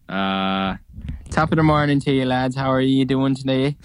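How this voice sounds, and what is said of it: Put-on Irish accent. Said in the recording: “Give us your Irish accent”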